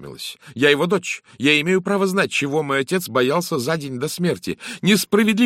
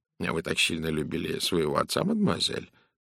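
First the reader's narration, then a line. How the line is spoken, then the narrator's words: Gentle question. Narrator (Russian): мягко спросил Пуаро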